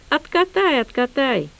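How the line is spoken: Heavy sigh, slightly snide. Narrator (Russian): Я тяжело вздохнула и с легкой ехидцей спросила

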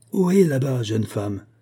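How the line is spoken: Exclaimed. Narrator (French): s'écria-t-il

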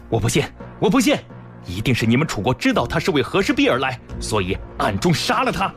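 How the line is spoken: Repeated clamoring. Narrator (Chinese): 副队连声嚷道

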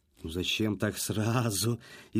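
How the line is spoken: Frightened gulp. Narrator (Russian): испуганно глотнул Леха

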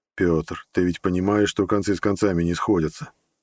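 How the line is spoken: Wry snort. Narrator (Russian): хмыкнул я

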